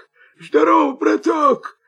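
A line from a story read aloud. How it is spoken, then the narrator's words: Wolf, hoarse. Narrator (Russian): хрипит волк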